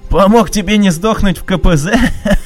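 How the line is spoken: Laughing loudly. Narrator (Russian): расхохотался

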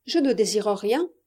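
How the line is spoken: Plain. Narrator (French): répondit la pastourelle

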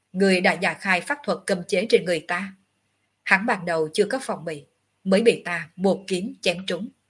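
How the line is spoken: Cold. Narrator (Vietnamese): Ngọc Hư Tử vẫn lạnh lùng

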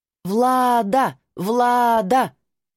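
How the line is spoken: Crowd chanting. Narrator (Russian): кричала толпа

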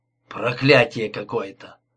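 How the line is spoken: Low grumble. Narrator (Russian): проворчал в полголоса

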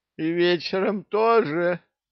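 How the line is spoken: Groan. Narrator (Russian): простонал Санти

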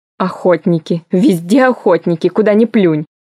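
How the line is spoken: Growling while running. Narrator (Russian): рычала тюльпана, несясь по лестнице

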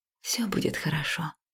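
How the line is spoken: Smiling whisper. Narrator (Russian): прошептала я, улыбаясь

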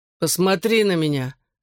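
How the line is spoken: Suffering tone. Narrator (Russian): страдальческим тоном произнес Гипси

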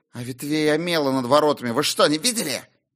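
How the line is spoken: Sudden vicious hiss. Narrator (Russian): Вдруг злобно прошипел юноша

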